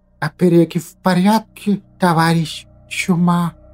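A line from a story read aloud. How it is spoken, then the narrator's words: Quiet hiss, hunchback. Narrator (Russian): Тихо прошипел горбатый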